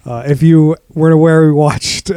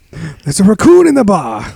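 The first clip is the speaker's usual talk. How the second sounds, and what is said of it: Imitates another person's voice. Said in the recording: “your best John Taffer impression saying there's a raccoon in the road”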